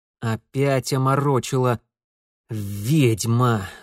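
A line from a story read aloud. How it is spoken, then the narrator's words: Angry drawl. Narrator (Russian): зло протянул он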